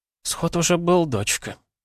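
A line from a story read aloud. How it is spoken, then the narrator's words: Careful explanation. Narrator (Russian): осторожно пояснила Нарва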